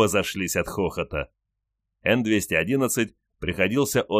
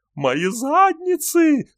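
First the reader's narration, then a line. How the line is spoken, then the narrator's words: Whining. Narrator (Russian): скулил Н-211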